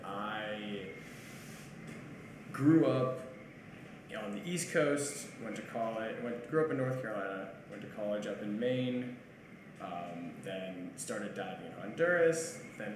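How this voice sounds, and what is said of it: American accent. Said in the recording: “if you can't tell by the accent, I'm from America”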